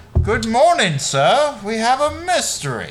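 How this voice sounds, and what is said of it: Put-on British accent. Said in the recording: “I just have to have a British accent all of a sudden.”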